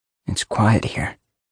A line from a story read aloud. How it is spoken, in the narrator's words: I whispered